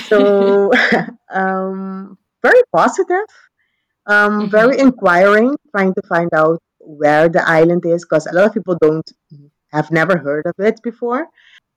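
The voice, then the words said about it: Caribbean accent with a twang. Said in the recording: “they hear your accent ... you have that twang ... I have the Caribbean sauce in my accent.”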